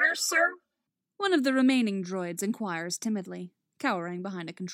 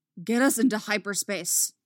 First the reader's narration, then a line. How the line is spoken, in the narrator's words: Dooku snaps